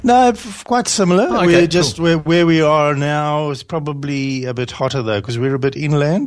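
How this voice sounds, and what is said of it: South African accent. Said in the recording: “his accent, which is from South Africa”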